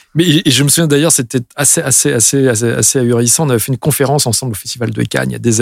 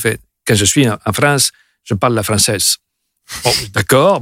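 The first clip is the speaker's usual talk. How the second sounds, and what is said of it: Imitation of Lalo Schifrin's heavy accent. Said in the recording (French): “il parle français comme ça, avec un accent quand même très très prononcé... tu le fais bien”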